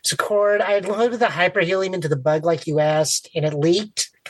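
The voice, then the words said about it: High-pitched chipmunk-like helium voice. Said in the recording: “I need to know how long I'm going to sound like this. Like, it's terrible. ... I sound like a chipmunk. ... the hyperhelium that's done this to you”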